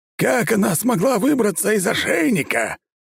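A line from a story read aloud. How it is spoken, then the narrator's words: Shrill womanish yelling. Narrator (Russian): Ланграж по бабе тоненько орал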